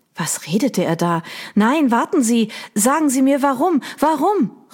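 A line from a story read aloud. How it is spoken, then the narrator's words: Called out. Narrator (German): rief Audrey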